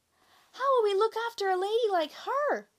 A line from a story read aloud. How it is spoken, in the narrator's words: cried his mother